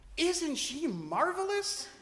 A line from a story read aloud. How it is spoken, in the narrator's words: he exclaimed